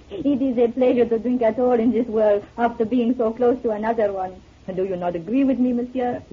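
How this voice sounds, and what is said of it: French accent. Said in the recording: “You're French, aren't you? ... Without that accent”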